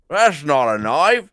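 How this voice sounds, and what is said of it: Mock Australian accent. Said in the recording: “making fun of the Australian accent ... they were doing it all like this”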